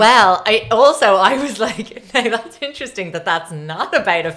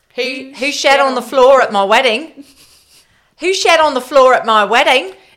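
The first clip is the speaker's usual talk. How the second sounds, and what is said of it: Put-on New Zealand accent. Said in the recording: “I have to say it in a Kiwi accent now.”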